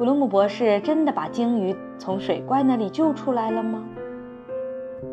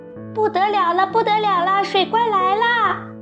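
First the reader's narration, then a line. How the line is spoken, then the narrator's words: Gurgling, bubbling cry. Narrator (Chinese): 鲸鱼咕噜咕噜地冒着泡泡叫着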